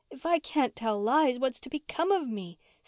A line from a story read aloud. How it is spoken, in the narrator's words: said Mary with a sob